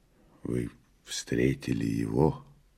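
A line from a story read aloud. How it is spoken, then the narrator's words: Quiet question. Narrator (Russian): тихо ответил Иван и спросил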